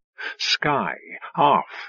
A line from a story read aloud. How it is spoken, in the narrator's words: he said, keeping his voice low